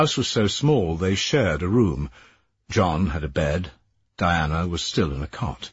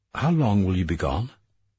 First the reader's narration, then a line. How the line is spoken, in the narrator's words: She said calmly